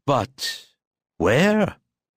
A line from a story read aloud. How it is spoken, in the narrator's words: Carl asked Kurt sleepily